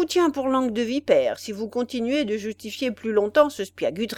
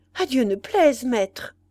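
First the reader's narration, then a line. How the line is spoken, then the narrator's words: Exclaimed. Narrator (French): s'écria celui-ci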